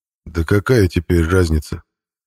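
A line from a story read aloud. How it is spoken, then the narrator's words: Unexpectedly calm voice. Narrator (Russian): неожиданно спокойным голосом ответил Хирч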